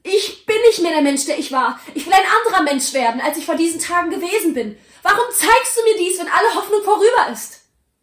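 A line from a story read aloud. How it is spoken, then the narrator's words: Called out, clutching robe. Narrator (German): rief er, sich fest an sein Gewand klammernd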